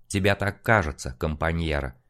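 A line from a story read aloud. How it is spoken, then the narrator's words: Calm retort. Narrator (Russian): спокойно парировал художник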